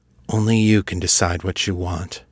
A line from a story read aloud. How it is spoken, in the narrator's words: said gravely